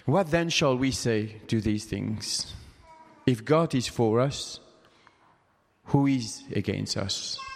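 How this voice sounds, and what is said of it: Speaks English with a foreign accent. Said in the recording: “if you are having problem with my accent”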